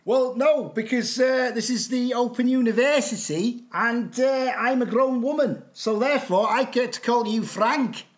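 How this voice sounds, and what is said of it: Put-on accent. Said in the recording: “I don't know how long I can keep the accent up for”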